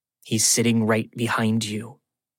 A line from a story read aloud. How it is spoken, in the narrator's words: she says to me quietly